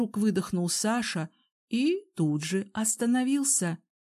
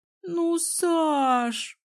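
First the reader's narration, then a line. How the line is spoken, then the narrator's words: Capricious whining moan. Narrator (Russian): капризно простонала Алсу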